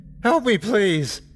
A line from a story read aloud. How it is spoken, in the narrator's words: I cried